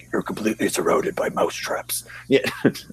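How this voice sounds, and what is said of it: Good impression of a horror-movie villain. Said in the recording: “Wow, that's a good impression.”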